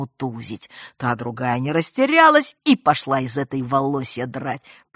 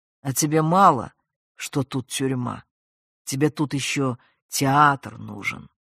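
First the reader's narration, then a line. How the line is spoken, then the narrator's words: Quiet remark. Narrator (Russian): негромко замечает Адам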